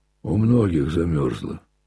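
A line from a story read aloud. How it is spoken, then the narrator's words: Calm, sententious reply. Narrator (Russian): спокойно и сентенциозно промолвил в ответ мужик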